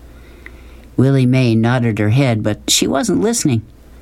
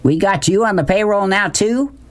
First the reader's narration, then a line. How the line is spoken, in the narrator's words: Beauchamp shouted